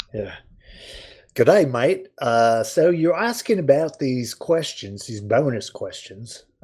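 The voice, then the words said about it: Put-on Australian accent. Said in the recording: “Perhaps using an Aussie voice will help those from down under ... So I have to use an Aussie voice.”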